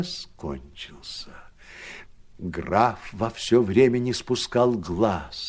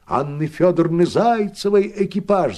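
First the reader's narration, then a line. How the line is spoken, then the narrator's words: Shouting. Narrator (Russian): закричал он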